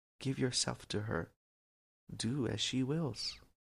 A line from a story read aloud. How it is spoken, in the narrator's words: The rising compassion in Krishna's heart whispered